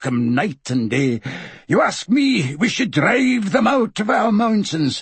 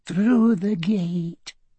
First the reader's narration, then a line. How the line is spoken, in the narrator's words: Fergus murmured